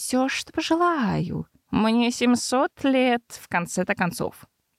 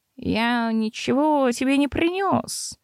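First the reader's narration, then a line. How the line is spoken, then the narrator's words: Grumbling. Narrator (Russian): проворчал Лир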